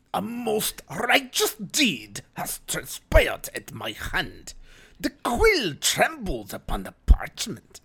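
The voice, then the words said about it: Crypt Keeper-like character voice. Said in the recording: “It sounded like the Crypt Keeper.”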